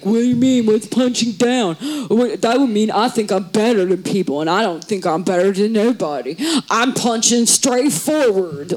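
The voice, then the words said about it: Imitates another person's voice. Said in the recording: “great Tim Dillon impression”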